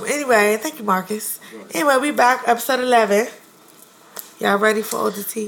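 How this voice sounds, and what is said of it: Lost, strained voice. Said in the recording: “I'm not gonna be sexy because my voice is gone.”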